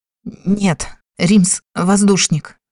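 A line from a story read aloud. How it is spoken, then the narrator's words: Shaking trembling voice. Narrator (Russian): дрожащим голосом ответил Эмиль, которого теперь просто трясло крупной дрожью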